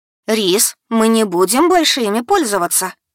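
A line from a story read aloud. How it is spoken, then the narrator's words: Stern. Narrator (Russian): строго сказала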